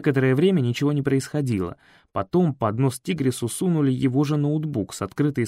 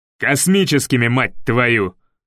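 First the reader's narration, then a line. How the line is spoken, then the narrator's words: Barking colonel. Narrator (Russian): гаркнул полковник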